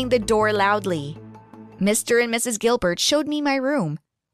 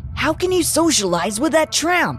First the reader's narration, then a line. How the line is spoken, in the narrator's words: Nick asked angrily